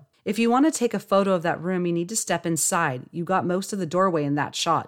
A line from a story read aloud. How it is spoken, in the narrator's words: she said